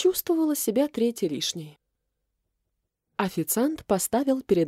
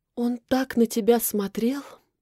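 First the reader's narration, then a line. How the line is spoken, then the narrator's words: Mysterious sigh. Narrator (Russian): Загадочно вздохнула Настя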